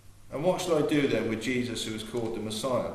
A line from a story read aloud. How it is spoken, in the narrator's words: Pilate asked